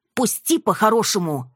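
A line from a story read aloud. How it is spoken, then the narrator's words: Bark. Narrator (Russian): рявкнула я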